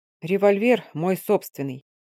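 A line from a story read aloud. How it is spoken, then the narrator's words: Through gritted teeth. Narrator (Russian): процедил Овалов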